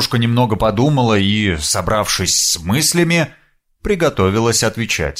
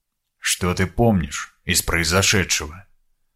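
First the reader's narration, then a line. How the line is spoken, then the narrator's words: Quiet question. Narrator (Russian): тихонько спросил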